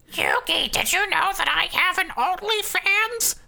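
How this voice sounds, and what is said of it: Gremlin-like goblin character voice. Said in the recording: “Why is she a gremlin? ... I will give every female character in the world a goblin voice.”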